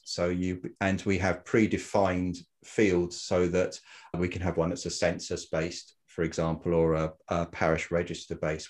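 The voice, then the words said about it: Very English accent. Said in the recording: “I've got a very English accent and we're over here in the UK”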